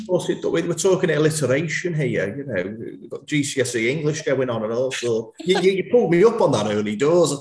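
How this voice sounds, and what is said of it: Scouse accent. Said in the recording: “even with a Scouse accent”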